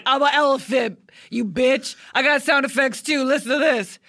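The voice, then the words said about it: Impression of shock jock Tom Leykis. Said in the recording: “James Adomian was doing his impression of Tom Likas, who is a misogynist Southern California shock jock.”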